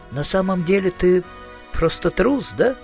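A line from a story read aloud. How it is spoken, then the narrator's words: Sighing. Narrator (Russian): вздохнул Маркоу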